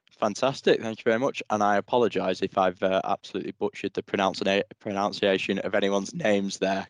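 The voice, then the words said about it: Strong English accent. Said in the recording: “It's a very strong English accent”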